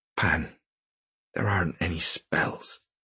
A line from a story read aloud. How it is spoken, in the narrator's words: she said, but so quietly that she hoped he wouldn't hear it